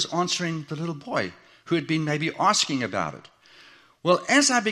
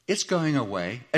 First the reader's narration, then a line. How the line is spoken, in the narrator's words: She answered in a very comforting tone